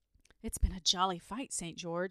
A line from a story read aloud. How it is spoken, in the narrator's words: he said with a sigh